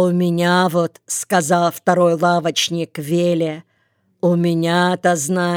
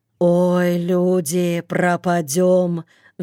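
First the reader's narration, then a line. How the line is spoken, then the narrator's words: Sighing. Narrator (Russian): вздохнул Йоле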